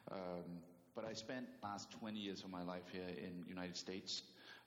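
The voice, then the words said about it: Danish accent. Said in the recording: “I'm from Denmark, so I do still carry an accent.”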